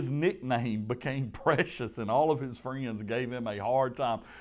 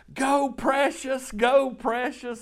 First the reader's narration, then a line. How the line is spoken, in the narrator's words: she would be in the stands yelling